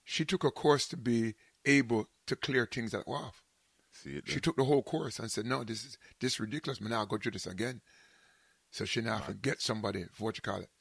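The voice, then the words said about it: Jamaican accent. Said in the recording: “my Jamaican accent, proper”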